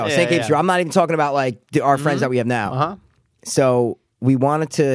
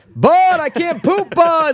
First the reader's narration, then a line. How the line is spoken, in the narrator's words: We're screaming